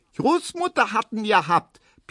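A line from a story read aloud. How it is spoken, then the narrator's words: Squeaky voice. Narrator (German): piepst Erna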